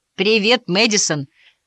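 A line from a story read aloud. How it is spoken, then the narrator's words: Repeated, more confident. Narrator (Russian): снова повторил Гарри, на этот раз куда более уверенным тоном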